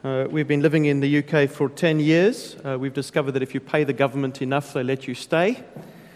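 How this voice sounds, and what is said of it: South African accent. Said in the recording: “I'm a South African, so it's going to take you a while to get used to my accent.”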